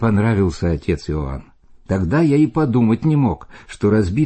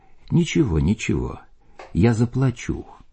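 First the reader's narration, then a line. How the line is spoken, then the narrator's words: Gentle. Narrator (Russian): мягко сказал мне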